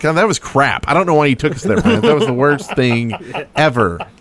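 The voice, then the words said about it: Imitates another person's voice. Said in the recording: “good impersonation?”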